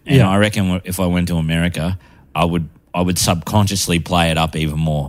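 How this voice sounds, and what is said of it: Strong Australian accent. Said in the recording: “I got the deepest Australian accent ... you already do sound pretty fucking Aussie”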